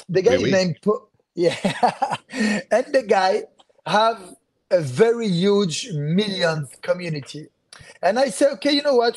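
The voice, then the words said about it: French accent. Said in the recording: “people know that I'm French regarding to my accent”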